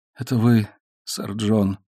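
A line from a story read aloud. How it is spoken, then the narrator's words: Dying man's mutter. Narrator (Russian): пробормотал умирающий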